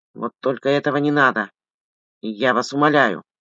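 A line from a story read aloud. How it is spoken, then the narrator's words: Sputtering mutter. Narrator (Russian): Отплевываясь, бормотал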